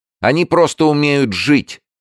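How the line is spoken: Angry shout. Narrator (Russian): зло крикнула Алла

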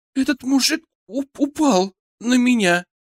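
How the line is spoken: Girl sobbing loudly. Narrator (Russian): девушка громко всхлипнула

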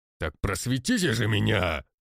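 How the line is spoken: Loud offended bass. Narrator (Russian): Оскорбившись, громко пробасил Конякин

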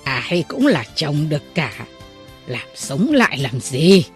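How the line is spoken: Speaking with loud laughter. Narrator (Vietnamese): người đó lại cười lớn nói

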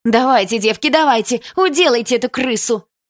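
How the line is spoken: Yell. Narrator (Russian): Кто-то заорал

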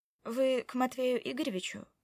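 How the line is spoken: Dry question. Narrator (Russian): спросила я сухо

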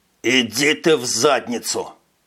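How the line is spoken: Through gritted teeth. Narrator (Russian): процедил Дэн

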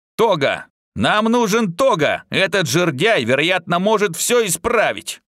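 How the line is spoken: Shout. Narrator (Russian): крикнул Пэт

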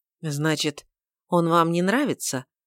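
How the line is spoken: Disappointed questioning tone. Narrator (Russian): поинтересовалась леди Уинсли весьма разочарованным тоном

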